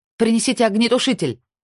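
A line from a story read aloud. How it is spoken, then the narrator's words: Shout after someone. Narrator (Russian): крикнула она ему вслед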